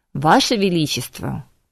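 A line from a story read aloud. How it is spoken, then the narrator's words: Stern objection. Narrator (Russian): строго возразил мэтр Вельмир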